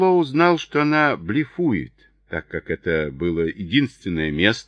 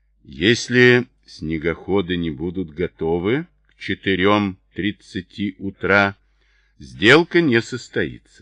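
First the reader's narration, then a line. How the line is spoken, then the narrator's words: Plain. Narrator (Russian): сказала Грейс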